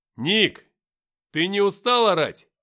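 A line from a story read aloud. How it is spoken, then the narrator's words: Shouting. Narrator (Russian): крикнул я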